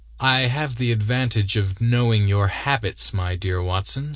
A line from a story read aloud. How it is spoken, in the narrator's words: said he